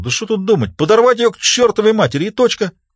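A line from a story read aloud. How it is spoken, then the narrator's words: Impulsive exclamation. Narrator (Russian): Не особенно и задумываясь, Старлей воскликнул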